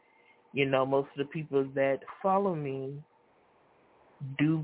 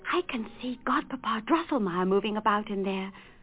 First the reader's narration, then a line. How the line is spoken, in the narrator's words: whispered Fritz